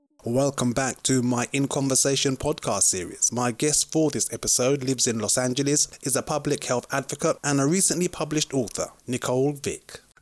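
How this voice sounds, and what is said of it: Speaks with a noticeable accent. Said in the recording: “such an awesome accent”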